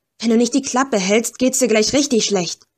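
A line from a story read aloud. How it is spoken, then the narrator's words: Snapping. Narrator (German): schnauzte an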